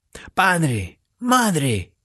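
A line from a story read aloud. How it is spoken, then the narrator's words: Exclaiming. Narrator (Spanish): exclamó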